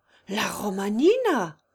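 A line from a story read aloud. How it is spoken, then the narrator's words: Exclaiming. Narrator (French): s'écria Consuelo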